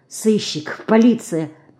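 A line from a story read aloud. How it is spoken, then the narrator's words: Frightened mutter. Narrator (Russian): пробормотал белый как мел Ленька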